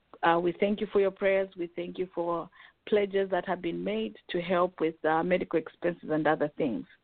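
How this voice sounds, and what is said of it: Hoarse, sick-sounding voice. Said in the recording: “you have to excuse my voice. I'm also trying to recover from this cold or cough.”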